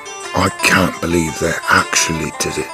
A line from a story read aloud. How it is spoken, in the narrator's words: he said to himself quietly